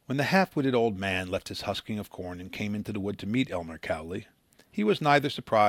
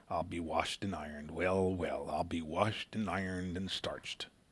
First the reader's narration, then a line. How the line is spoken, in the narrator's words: When excited or surprised by anything, he muttered